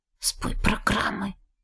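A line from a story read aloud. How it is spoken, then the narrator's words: Uncertain whisper. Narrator (Russian): шепнула, сама не зная кому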